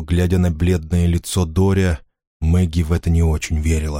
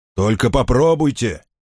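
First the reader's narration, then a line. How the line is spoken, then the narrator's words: Shout. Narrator (Russian): крикнул он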